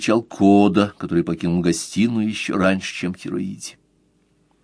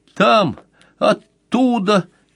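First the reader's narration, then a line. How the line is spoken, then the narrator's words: Shaken babbling. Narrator (Russian): пролепетал Кода, еще не оправившись от потрясения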